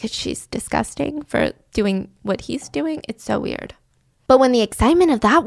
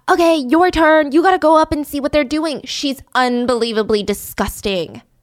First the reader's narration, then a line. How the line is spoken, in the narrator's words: a bunch of jocks … scream to their other buddies